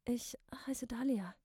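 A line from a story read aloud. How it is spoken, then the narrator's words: Hoarse repetition. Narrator (German): ziemlich heiser noch einmal wiederholte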